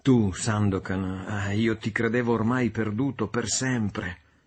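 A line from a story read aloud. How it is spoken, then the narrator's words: Emotional exclamation. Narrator (Italian): Yanez si slanciava fra le sue braccia, esclamando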